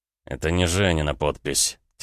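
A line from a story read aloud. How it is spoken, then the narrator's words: Quiet, not to be overheard. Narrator (Russian): тихо произнес Рома, чтобы Викмайер не слышал, что он говорит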